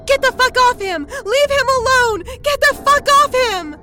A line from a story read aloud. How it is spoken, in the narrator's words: screaming